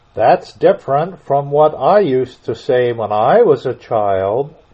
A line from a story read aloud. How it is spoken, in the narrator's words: said the Gryphon